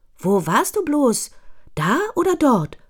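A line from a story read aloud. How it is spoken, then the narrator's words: Excited question. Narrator (German): fragt aufgeregt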